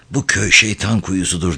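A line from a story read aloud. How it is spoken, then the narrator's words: Murmured in wounded voice. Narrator (Turkish): diye mırıldandı yaralı bir sesle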